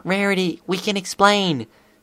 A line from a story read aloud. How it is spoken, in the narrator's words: Sweetie Belle whimpered